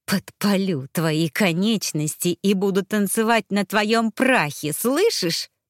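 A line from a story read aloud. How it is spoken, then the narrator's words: Menacing hiss. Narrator (Russian): прошипела я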